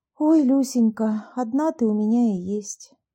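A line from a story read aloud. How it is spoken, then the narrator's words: Sighing, holding back tears. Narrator (Russian): вздохнула Анна, стараясь не заплакать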